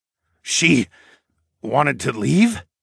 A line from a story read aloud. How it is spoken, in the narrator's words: Darwin stammered